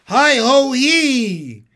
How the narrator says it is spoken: he called loudly

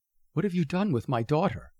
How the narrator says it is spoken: she says

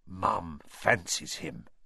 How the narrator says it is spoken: said Fred in a very audible whisper

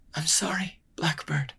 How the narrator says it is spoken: she breathed

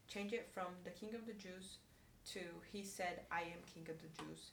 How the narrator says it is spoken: Pilate replied

